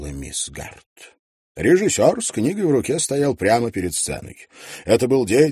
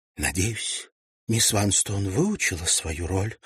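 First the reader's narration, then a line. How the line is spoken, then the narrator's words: Whispered. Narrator (Russian): прошептала миссис Мэрбл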